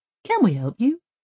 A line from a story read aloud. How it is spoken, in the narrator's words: he says again in a friendly tone of voice